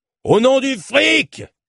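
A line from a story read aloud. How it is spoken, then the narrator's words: Anonymous shout in cave. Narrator (French): cria une voix anonyme dans la grotte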